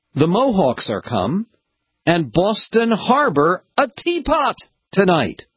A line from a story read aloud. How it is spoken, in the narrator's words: a group of people who shouted out